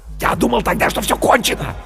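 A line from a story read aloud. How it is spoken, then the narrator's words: Fervent whisper. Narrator (Russian): горячо зашептал Бергман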